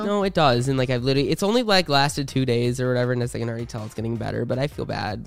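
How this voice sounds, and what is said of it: Slightly sick, cold-affected voice. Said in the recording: “I'm fucking sick ... I got a cold ... You can even hear it in my voice probably. ... A little bit.”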